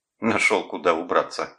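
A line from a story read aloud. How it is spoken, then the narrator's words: Scoffing snort. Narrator (Russian): хмыкнул он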